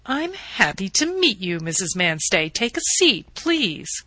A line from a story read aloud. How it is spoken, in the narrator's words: the landlady remarked in her prosperous voice, the voice of a woman who can afford to build extensions